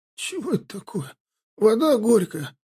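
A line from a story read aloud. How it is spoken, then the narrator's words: Hoarse, out of breath. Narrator (Russian): просипел он, отдышавшись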